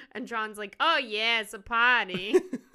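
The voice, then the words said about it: Put-on exaggerated accent. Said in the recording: “My accent. ... That was pretty good. ... I try to channel Pauly D in that.”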